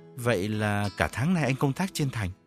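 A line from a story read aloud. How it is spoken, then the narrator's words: Stammering, softer questioning tone. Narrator (Vietnamese): Gã ú ớ dò hỏi bằng một giọng hòa hoãn hơn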